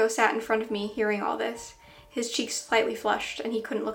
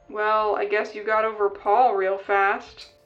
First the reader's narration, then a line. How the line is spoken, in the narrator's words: my dad chuckled